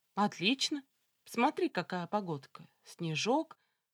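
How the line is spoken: Forced cheerfulness. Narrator (Russian): ответила я нарочито весело

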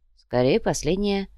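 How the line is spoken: Grumble. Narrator (Russian): проворчал лежащий рядом Кортес

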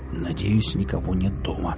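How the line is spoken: Mumbling. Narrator (Russian): пробормотал

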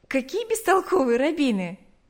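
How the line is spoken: Laughing. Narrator (Russian): засмеялась она

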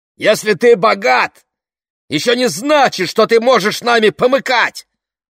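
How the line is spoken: Father yelling. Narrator (Russian): заорал папа

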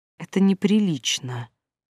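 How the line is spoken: Whispered reply. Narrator (Russian): прошептала в ответ Юля

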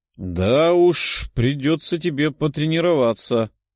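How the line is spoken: Grumbling. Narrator (Russian): проворчал демон

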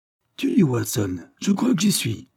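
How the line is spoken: Exclaimed. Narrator (French): s'écria-t-il

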